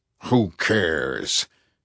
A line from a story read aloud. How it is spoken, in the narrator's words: he growled